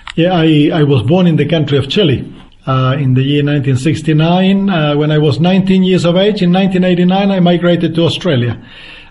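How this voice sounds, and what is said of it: Slight foreign accent. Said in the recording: “just a little bit of accent”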